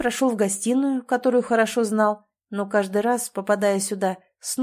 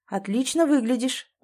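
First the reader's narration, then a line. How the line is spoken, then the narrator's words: Soft, careful opening. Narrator (Russian): мягко начал Виталий, понимая, что нужно осторожно расположить ее к разговору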